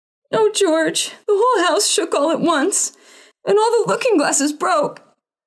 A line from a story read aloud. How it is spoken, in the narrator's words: wailed his mother, and Adriana and Cordelia joined